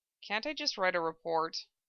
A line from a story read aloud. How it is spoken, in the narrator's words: Ed asked quietly, trying to delay the inevitable